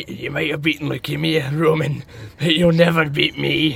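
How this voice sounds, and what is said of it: Americanized Scottish accent impression. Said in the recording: “his Americanized Scottish accent ... That was really good. ... It's a little bit Biffy Clyro. It's kind of somewhere across the Atlantic.”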